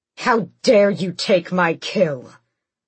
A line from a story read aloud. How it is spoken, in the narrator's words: Abraxos roared